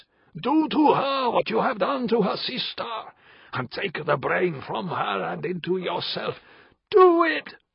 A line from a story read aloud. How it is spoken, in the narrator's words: The voice was screaming